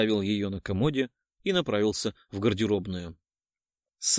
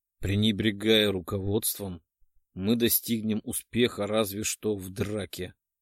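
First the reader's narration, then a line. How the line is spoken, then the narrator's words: Through clenched teeth. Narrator (Russian): Процедил сквозь стиснутые зубы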